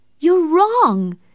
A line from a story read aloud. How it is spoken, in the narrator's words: Catherine cried